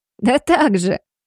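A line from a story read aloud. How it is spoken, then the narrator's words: Giggling cleaning woman. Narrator (Russian): хихикнула уборщица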